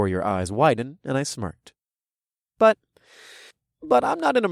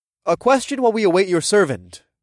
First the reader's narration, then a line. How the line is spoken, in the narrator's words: I requested in a loud voice